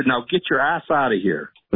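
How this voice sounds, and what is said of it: Put-on New York accent. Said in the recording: “in New York accent”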